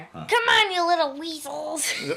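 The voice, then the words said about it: Imitates a cartoon character's voice. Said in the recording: “Great impression there.”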